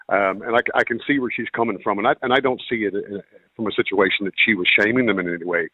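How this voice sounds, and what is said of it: American accent. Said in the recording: “you might know by my accent, I'm American”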